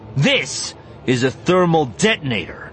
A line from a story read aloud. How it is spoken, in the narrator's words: Han said, his voice confident and strong